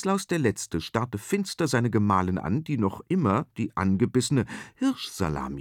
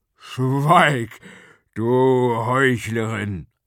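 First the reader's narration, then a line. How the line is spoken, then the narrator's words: Thundering king. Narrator (German): donnerte der König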